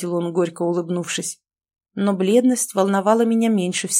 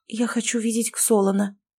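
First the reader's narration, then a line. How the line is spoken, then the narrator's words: Weak trembling voice. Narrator (Russian): слабым дрожащим голосом заявила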